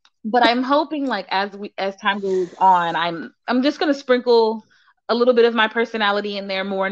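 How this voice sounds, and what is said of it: Usual voice. Nothing is said of it.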